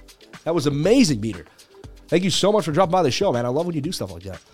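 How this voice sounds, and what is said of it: Usual voice. Nothing is said of it.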